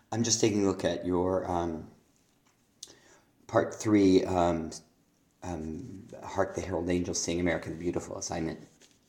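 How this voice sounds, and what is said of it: Hoarse voice with laryngitis. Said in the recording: “Pardon my voice. I have a bit of a cold, so I have a little bit of laryngitis.”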